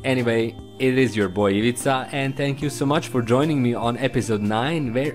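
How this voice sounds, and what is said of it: Slavic accent. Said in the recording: “my Slavic accent”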